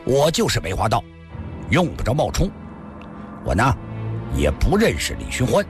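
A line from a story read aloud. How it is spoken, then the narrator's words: Stern. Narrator (Chinese): 阿飞厉声地说道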